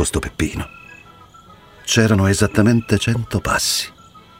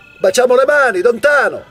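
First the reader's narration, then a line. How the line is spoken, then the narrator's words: Shouted. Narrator (Italian): aveva gridato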